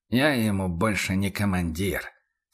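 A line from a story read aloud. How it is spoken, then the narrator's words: Through clenched teeth. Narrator (Russian): сквозь зубы процедил Хауэр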